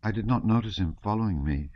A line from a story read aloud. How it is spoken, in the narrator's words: she said timidly